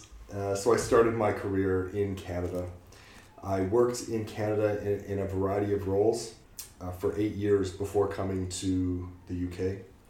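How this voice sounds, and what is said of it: Canadian English accent. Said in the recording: “people have recognized my accent as funny and different. I am Canadian.”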